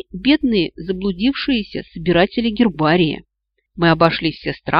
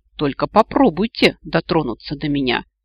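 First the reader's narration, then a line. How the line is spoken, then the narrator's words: Hissing, dazed elf. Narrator (Russian): прошипел вышедший из прострации эльф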